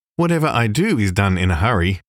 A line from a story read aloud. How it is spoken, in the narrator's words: replied he